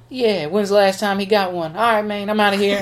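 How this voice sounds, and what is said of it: Terrence Howard impression. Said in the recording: “I'm tired of doing this voice. ... that would be a Terrence Howard move”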